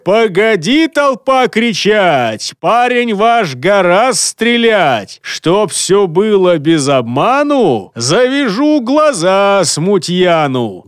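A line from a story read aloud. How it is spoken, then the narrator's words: Loud deep bass. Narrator (Russian): Громко пробасил он в сторону толпы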